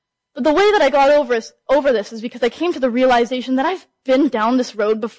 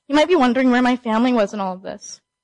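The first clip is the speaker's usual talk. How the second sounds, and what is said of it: Emotional, choked-up voice. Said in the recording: “I'm getting a little emotional”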